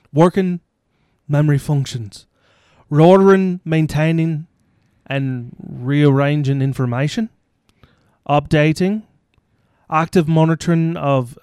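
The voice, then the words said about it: Weak attempt at Irish accent. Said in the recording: “Can you be Irish? ... I can try. Let's see. It's been a while since I've done an Irish accent. ... I can't do it right now. ... I can't do Irish right now.”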